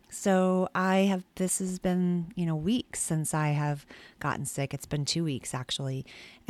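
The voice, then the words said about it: Gravelly, gruff sick voice. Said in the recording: “as you can probably tell from my voice, it still hasn't gotten better... I'm still sounding kind of gravelly and gravel... that gruff kind of voice that is not my normal voice”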